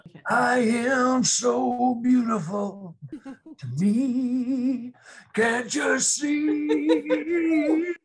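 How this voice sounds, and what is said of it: Sung imitation of another singer's voice. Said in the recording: “What a good imitation. ... Joe Cocker.”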